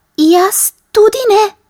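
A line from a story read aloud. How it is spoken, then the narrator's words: Mouse squeaking. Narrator (Slovenian): je zacvilila miška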